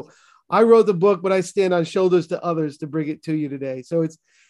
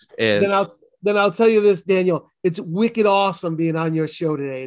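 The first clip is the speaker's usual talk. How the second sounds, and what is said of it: Exaggerated Boston accent. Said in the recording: “my Boston accent, because I want to say ka and haba and daughter ... you can do your Boston, Havad, Yod, whatever it is, Pak the Ka”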